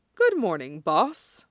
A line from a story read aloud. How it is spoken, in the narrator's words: the kid sleepily greeted back